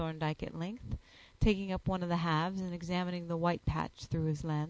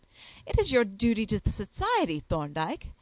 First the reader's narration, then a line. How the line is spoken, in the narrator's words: I exclaimed passionately